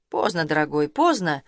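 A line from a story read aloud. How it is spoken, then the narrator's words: Through gritted teeth. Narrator (Russian): отозвался Таранцев сквозь зубы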